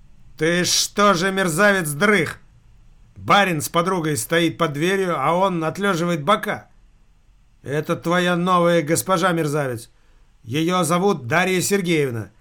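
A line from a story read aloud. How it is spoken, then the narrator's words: Loud yell. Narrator (Russian): заорал Скотопаских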